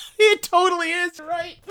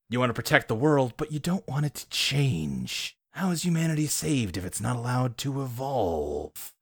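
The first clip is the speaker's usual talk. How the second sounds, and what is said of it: Imitates the villain Ultron's voice. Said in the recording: “your Ultron impression is exactly the same as your Mandarin impression”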